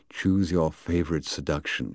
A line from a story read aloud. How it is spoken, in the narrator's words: she purred